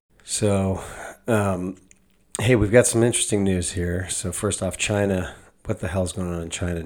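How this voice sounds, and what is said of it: Slightly congested, sick-sounding voice. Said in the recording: “I've got a little cold here”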